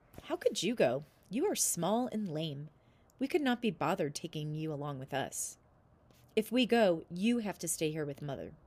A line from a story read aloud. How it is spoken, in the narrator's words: they laughed at him and said